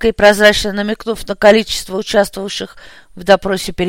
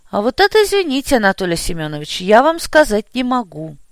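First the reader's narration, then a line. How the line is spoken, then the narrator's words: Sighing. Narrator (Russian): вздохнул я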